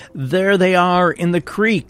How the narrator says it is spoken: Union miners ran after them yelling

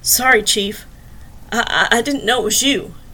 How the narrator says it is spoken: he said, his voice raspy in between gasps

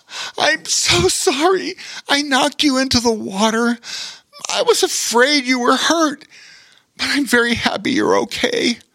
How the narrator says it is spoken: Rowan threw his arms around his older brother and cried

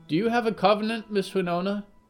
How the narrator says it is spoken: Arnold piped up from the other side of the platform

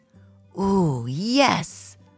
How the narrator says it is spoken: exclaimed Gruntly

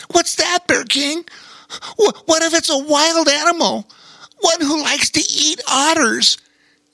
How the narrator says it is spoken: exclaimed a nervous Bobo Chico

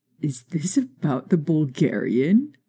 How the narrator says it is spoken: Remus laughed

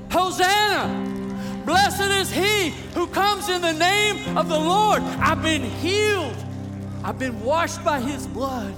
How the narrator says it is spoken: will be shouting out

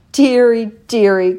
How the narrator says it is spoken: cried Papa Panov slowly

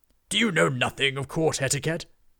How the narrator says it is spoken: boomed the rider

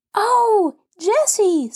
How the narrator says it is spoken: screamed Benny

